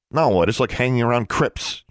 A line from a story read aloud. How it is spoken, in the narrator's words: she snapped